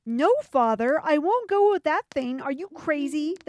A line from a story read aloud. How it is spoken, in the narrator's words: the princess cried